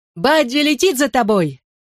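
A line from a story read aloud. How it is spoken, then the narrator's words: Yelled after them. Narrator (Russian): Заорал я им вслед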